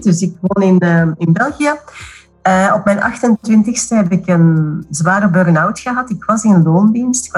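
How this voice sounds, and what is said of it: Belgian Dutch accent. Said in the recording (Dutch): “zoals je hoort eh, heb ik een Belgisch accent”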